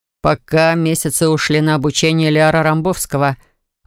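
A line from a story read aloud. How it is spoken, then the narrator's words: Snort. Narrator (Russian): вновь хмыкнул Дарт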